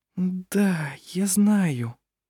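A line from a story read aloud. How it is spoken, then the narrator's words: Barely audible. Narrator (Russian): еле слышно произнесла Гунила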